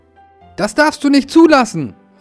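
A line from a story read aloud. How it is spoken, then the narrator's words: Angry interrupting mower. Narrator (German): rief der Aufsitzrasenmäher wütend dazwischen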